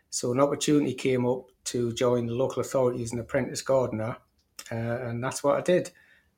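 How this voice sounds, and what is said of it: Slight northeast English Geordie accent. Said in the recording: “a tinge of a northeast accent ... Proper Geordie.”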